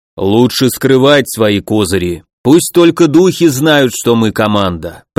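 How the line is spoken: Deep bass voice. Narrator (Russian): пробасил Думиса

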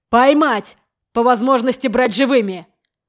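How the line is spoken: Shout. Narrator (Russian): крикнул

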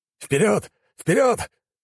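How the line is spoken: Commander shouting. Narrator (Russian): кричал командир подразделения имперской армии

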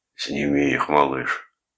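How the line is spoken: Muffled, hoarse plea. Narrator (Russian): попросил он глухим, хриплым голосом

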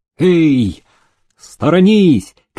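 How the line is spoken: Mounted soldiers shouting. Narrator (Russian): кричали конные рейтеры

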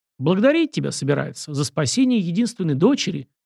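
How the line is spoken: Snide smirking prince. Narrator (Russian): ехидно усмехнулся князь

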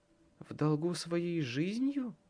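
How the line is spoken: Thoughtful. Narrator (Russian): задумчиво сказала Леа

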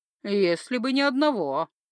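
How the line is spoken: Snort. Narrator (Russian): хмыкнул Рашмит

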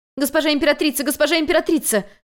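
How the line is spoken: Agitated shouting. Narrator (Russian): взволнованно кричала Минюй

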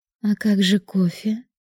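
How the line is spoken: Breathy exhale. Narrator (Russian): выдохнула она

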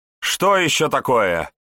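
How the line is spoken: Irritated bishop barking. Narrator (Russian): раздраженно рявкнул епископ

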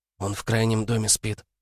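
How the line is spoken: Whisper. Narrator (Russian): прошептала Таня

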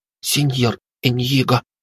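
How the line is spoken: Stammering. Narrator (Russian): Она стала заикаться

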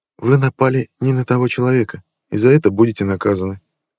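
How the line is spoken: Quiet voice. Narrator (Russian): человек негромко сказал

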